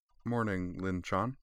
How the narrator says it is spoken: said quietly, her cheeks going red

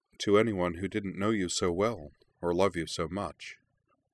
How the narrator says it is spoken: Anthy said gently

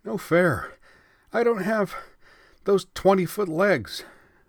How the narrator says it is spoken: Jun panted

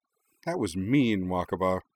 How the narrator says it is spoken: Hikaru sighed when she'd finished laughing

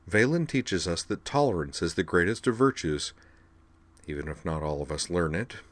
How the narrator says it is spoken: she added in a wry undertone

